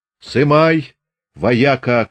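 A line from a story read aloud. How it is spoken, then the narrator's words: Shouted. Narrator (Russian): крикнул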